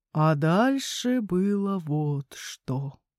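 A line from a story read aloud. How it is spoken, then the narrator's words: Drawling. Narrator (Russian): протянул он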